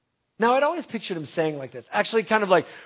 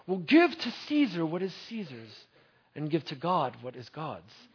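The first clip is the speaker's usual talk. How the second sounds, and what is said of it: Regal pseudo-British accent. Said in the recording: “in kind of a pseudo-British accent ... very regally”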